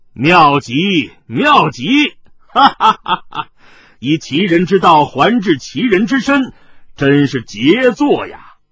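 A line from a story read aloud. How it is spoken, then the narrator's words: Laughing. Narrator (Chinese): 麻衣客笑道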